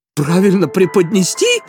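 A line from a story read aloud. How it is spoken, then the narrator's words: Sudden female shout. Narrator (Russian): неожиданно выкрикнула она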